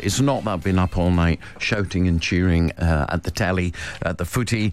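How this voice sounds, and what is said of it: Voice with a cold. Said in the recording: “I've got a cold.”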